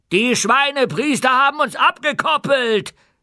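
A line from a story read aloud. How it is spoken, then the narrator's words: Shouted. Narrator (German): schrie Feucht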